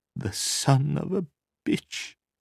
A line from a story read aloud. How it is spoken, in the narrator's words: she said finally in a thin, weak voice